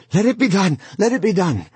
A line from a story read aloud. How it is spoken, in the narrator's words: he cried out